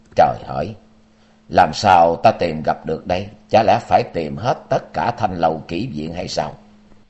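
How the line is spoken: Mutter. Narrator (Vietnamese): Chàng lẩm bẩm

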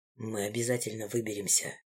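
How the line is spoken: Quiet. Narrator (Russian): тихо сказал он

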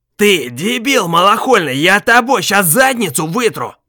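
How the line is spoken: Former boss yelling. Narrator (Russian): заорал его бывший начальник

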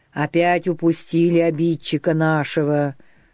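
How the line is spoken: Low, muffled, threatening. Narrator (Russian): глухо, с угрозой проговорил Дмитр

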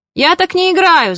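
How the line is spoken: Shouted. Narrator (Russian): закричал Матюш

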